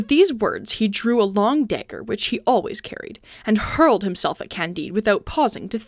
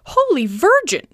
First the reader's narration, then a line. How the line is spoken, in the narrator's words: exclaimed